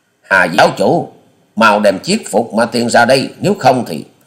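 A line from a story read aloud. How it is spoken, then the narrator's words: Thunderous shout. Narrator (Vietnamese): Quyết ma thể ghi quá nhân quát lên to như sấm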